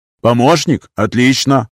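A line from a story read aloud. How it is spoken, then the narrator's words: Growl. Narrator (Russian): Прорычал я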